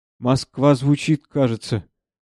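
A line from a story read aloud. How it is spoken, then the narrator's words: Uncertain. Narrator (Russian): неуверенно сказал я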